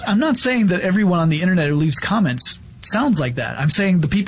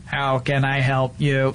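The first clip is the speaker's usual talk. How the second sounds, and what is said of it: Robotic voice. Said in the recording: “my robot voice is”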